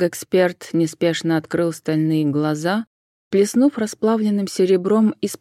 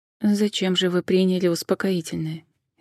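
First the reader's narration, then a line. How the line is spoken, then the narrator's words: Quiet question. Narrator (Russian): негромко поинтересовалась Джен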